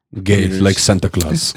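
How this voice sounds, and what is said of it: Bad put-on Russian accent. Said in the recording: “That's the worst Russian accent ever.”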